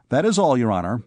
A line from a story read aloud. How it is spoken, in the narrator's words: said